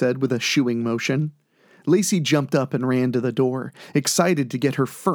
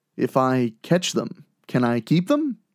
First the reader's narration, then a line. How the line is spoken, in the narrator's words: asked playfully